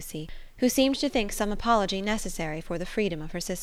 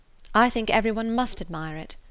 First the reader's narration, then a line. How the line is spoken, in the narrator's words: replied Eleanor